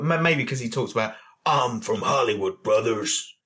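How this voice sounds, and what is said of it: Impression of Hollywood Hulk Hogan. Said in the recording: “good Hollywood impression.”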